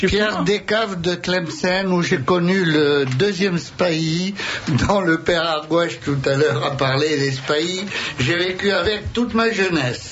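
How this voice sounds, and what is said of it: Pied-noir French accent. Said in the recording (French): “de façon très française, a un délicieux accent pied-noir”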